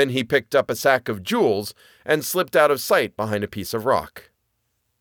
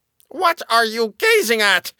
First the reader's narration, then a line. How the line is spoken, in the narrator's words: cried the dwarf, at the same time becoming red with rage